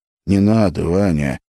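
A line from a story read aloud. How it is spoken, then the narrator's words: Hoarse plea. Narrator (Russian): хрипло попросил Филипп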